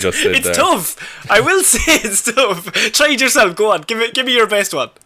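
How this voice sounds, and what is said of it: Usual voice. Nothing is said of it.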